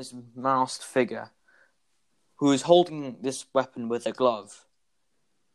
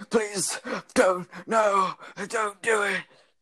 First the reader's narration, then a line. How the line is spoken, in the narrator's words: The man falls to the ground, gasping for breath, saying